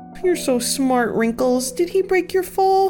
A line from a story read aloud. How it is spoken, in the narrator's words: Gwen cooed